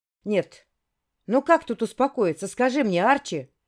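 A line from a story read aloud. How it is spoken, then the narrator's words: Roar like wounded animal. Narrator (Russian): Словно раненый зверь взревела я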